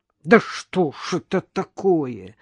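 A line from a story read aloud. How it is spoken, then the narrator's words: Angry hiss. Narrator (Russian): злобно прошипел он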